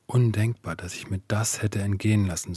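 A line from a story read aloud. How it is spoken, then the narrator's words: Gentle, tearful. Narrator (German): sagte sanft, während die Tränen über ihre Wangen liefen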